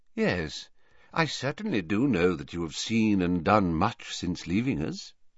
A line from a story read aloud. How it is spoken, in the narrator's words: he said quietly